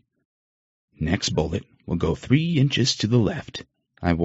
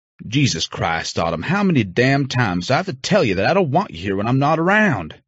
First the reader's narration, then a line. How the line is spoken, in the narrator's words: I snapped, pissed off that she didn't listen to me